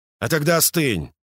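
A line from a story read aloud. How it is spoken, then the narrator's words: Harsh voice. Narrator (Russian): жестким голосом произнес Подкова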